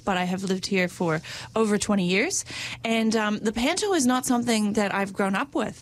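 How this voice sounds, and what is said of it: American accent. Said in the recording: “my Trans-Pacific dialect gives away that I am unfortunately American by birth”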